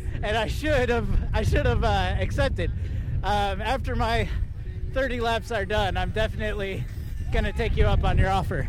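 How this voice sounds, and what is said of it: Out of breath while talking. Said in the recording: “I'm pretty out of breath. It's a little hard to, like, interview and ride at the same time.”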